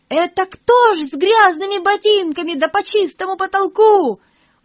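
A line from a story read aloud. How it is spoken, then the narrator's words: Sudden shout, cleaning woman. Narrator (Russian): вдруг уборщица как закричит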